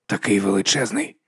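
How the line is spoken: Whisper. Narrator (Ukrainian): прошепотів Гаррі

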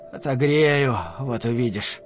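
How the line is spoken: Muffled mutter. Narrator (Russian): пробормотав глухо

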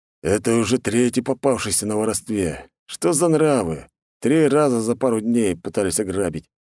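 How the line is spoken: Man grumbling. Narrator (Russian): пробурчал светловолосый мужик

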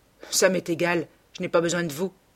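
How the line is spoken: Cold. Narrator (French): dit Campbell froidement

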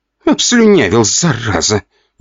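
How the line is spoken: Grumbling. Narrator (Russian): ворчала она

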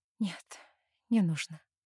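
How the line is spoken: Whispered. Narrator (Russian): отвечаю шепотом

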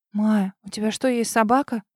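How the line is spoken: Bewildered question. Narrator (Russian): растерянно спросила Дарья Петровна

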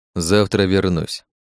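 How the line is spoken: Calm. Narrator (Russian): спокойно сказал

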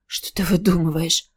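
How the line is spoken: Hoarse. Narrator (Russian): прохрипела она

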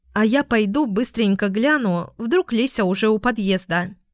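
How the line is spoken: Plain. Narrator (Russian): сказала Луна

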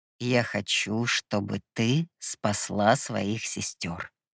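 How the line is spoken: Sweet drawl. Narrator (Russian): сладко протянул Гипнос

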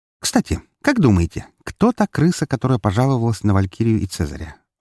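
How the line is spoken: Sudden question. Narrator (Russian): внезапно спросила Фокси

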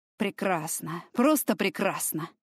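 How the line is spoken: Cursing through gritted teeth. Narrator (Russian): Он выругался сквозь зубы

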